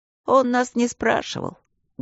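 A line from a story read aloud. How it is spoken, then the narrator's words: Sad reply. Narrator (Russian): грустно ответил Аристарх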